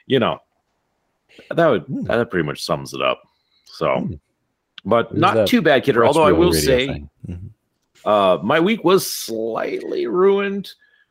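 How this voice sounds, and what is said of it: Slightly rough, radio-style voice. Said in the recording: “after two full days of announcing hockey ... the voice is a little rough, but it's definitely what I call my radio voice”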